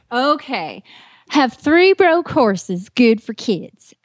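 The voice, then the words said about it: Attempted put-on Southern accent. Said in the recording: “You have to do the Southern accent because it's a requirement that the rookie has to do the Southern accent once.”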